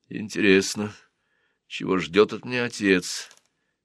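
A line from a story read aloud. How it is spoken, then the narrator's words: Gloomy thought. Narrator (Russian): подумал Сен-Мут мрачно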